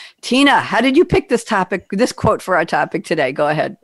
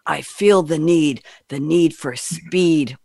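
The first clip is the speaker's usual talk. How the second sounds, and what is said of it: Poor impression of another person's voice. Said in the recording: “I can't do a Tom Cruise accent. I'm sorry, a voice impersonation ... Oh, that was a terrible Tom Cruise.”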